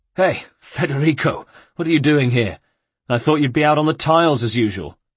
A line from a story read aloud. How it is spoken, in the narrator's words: Ezio's heart pounded with relief, and he managed to gasp